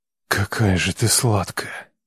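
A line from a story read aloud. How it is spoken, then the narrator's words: Hoarse rasp. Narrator (Russian): Хрипит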